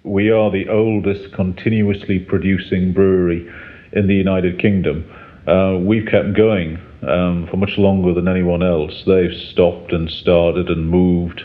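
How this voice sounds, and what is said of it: Northern English accent. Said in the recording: “as you can tell by his accent ... is a North Country man”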